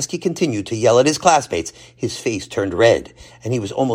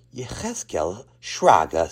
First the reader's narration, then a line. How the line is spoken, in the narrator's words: said Rebbe Kaplan softly